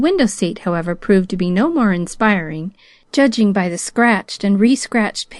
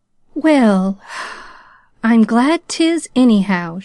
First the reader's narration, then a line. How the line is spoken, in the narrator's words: she sighed to herself